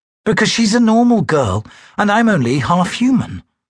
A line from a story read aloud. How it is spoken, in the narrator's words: I said